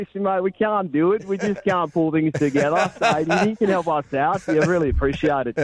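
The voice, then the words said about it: Put-on Australian accent, not very good. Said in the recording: “Do that in an Australian accent. ... That one wasn't quite as good as your Scottish one.”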